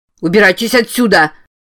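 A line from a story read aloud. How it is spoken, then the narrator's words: Shout. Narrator (Russian): закричал Слоуик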